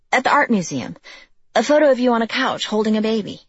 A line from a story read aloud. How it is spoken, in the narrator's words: she blurted out